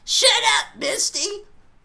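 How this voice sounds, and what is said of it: Imitates a cartoon character's voice. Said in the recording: “That was my Ash impression. It needs work.”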